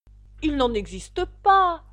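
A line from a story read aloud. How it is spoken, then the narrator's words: Angry. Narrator (French): se mit à dire Alice d'un ton courroucé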